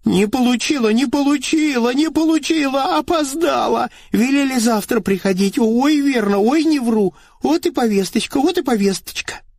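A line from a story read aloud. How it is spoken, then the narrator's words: Woman pleading. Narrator (Russian): Тут взмолилась баба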